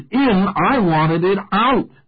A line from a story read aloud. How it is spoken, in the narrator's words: shouted